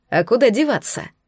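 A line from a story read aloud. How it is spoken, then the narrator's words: Dragon's snorting grunt. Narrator (Russian): хмыкнул дракон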